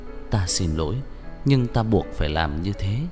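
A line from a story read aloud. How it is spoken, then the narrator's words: Repeated muttering. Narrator (Vietnamese): Chàng luôn miệng lẩm bẩm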